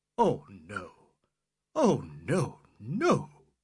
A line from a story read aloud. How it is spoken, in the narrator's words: gasped, feeling sickish